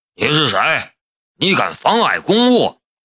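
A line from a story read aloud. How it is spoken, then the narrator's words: Flat, cool. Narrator (Chinese): 龙兵淡淡的道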